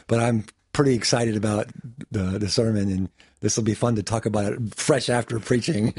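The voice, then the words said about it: Slightly raspy voice. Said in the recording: “my voice may be a little raspy”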